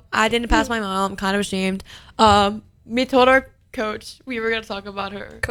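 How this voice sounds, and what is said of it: Hoarse, fading voice. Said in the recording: “I'm losing my voice. ... Why is my voice gone?”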